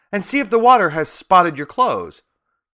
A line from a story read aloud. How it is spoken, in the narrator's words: cried my grandfather